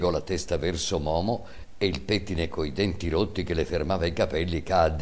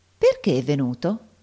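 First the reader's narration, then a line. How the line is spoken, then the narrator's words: Insinuating question. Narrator (Italian): gli domandò Giannina con la sua voce insinuante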